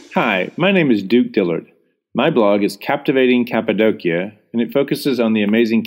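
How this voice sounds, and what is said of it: American accent. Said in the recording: “blogging American accent”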